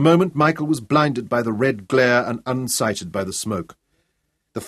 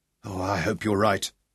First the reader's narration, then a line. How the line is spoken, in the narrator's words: whispered Michael